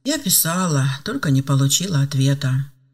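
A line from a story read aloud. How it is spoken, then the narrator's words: Sighing. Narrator (Russian): вздохнула Ева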